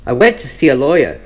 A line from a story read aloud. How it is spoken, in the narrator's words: Pushane says